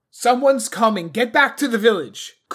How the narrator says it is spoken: shouted

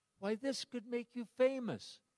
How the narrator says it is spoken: his girlfriend then cried

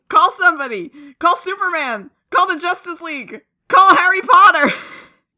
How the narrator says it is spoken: yelling

